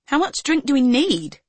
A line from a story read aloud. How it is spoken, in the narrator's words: Stephanie exclaimed